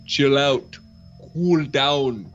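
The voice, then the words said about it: Arnold Schwarzenegger as Mr. Freeze impression. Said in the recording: “Doing an impression. Hold on. Doing an impression of Arnold Schwarzenegger as Mr. Freeze in the famous Batman and Robin”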